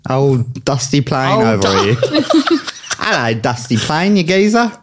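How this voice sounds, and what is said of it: Spot-on put-on Cockney accent. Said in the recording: “Cockney ... That's a very spot-on accent.”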